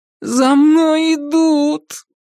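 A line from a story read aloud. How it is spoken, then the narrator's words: Groaning. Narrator (Russian): простонал Альберт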